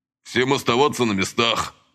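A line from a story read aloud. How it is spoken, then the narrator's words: Through gritted teeth. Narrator (Russian): процедил Василий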